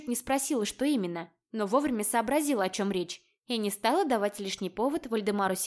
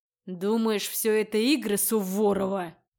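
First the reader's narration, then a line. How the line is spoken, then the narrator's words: Frightening growl. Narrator (Russian): Зарычал он, испугав меня до чертиков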